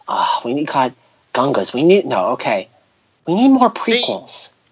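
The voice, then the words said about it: Imitates another person's voice. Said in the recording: “Lucas voice ... you need to kind of breathe in when you're talking”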